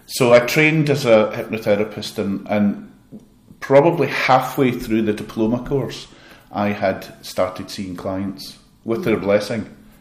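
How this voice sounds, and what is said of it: Glaswegian Scottish accent. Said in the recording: “I love Glasgow. I'm from Glasgow ... I love the accent.”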